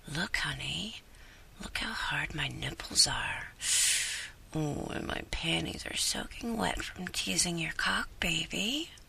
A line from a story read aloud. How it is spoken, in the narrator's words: whispering